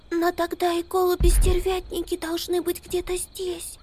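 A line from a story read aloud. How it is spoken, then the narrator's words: Frightened whisper. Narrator (Russian): испуганно прошептала Амелия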